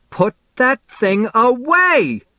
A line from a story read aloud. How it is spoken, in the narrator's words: Mom shrieks